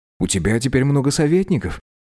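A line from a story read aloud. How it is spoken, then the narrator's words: Gentle reminder. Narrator (Russian): мягко напомнил Теппик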